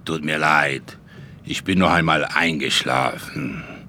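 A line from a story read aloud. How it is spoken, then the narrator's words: Croaking old man. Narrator (German): krächzte Großonkel Wladimir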